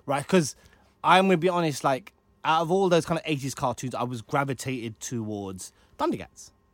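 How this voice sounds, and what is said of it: Speaks with a noticeable accent. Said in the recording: “it's my accent”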